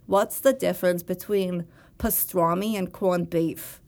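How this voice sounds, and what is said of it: Imitated Long Island accent. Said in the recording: “a perfect Long Island accent as long as I say those words”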